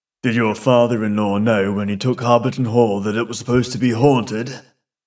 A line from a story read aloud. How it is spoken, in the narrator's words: He said in a low voice to Mr